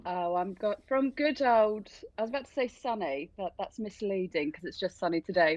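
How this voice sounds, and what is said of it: English accent. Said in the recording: “What is that accent? ... Rainy England, that's where I'm from.”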